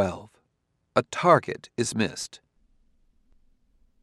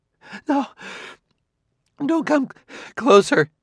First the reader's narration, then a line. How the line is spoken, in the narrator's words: she begged